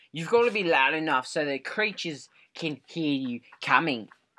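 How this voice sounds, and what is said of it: Loud Australian accent. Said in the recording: “do you actually have an Australian accent ... your volume level is four times louder”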